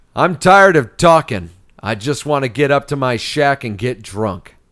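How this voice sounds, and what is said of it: Kurt Russell impression, sounds like John Wayne. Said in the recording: “my Kurt Russell impression, and it usually sounds like John Wayne”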